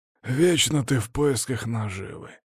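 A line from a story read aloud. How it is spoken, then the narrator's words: Displeased grumbling. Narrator (Russian): недовольно проворчал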